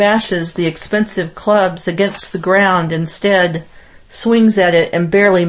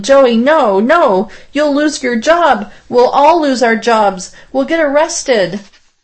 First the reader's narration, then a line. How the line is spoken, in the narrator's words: me yelling